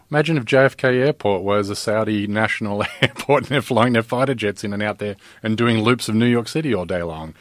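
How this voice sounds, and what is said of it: Fancy-sounding foreign accent. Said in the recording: “with your fancy accent”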